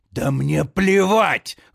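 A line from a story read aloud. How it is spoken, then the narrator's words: Sudden angry hiss. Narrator (Russian): вдруг зло шипит Кюль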